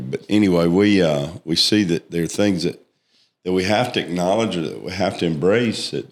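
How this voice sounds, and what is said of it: Hoarse, froggy voice. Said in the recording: “Y'all excuse my frogginess. My voice has been ... A little bit froggy lately”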